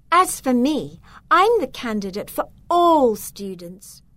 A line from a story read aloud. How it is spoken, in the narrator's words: she declared loudly enough for everyone to hear